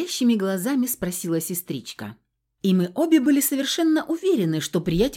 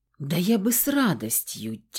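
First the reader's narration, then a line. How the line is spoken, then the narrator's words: Heavy sigh. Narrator (Russian): тяжко вздохнул Дор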